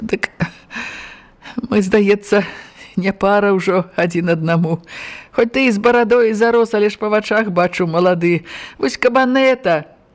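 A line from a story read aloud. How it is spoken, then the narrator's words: Guilty smile. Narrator (Belarusian): вінавата усміхнулася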